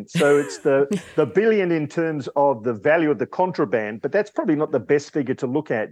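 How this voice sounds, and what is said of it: Australian accent. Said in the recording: “Probably the Australian accent.”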